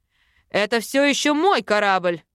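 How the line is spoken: Angry bark. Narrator (Russian): Рявкнул на него Эйрик

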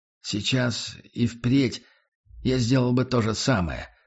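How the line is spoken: Quiet. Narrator (Russian): произнес я тихо

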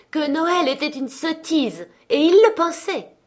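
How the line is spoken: Exclaiming nephew. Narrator (French): s'écria le neveu de Scrooge

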